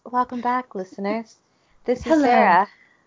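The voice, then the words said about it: Soft soothing voice. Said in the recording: “I'm trying to do a soothing voice.”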